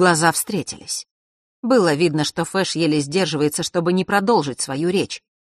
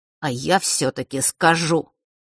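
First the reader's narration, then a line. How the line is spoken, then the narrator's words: Through gritted teeth. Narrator (Russian): процедил Фэш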